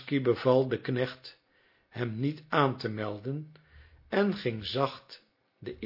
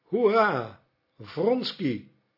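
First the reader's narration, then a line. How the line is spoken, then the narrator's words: Calling out. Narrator (Dutch): riep Petritsky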